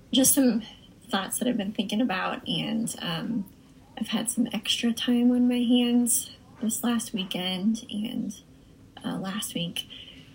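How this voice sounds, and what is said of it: Strained, failing voice. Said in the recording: “my voice is kind of giving up”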